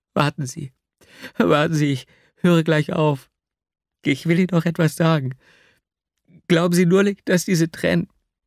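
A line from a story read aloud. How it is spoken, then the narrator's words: Tearful stammering. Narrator (German): stammelte unter Tränen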